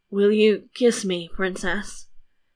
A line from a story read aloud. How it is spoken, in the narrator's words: he said feebly